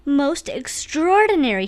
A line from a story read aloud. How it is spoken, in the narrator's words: he exclaimed